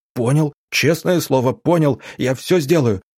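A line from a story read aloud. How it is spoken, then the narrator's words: Babbling. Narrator (Russian): залепетал Федя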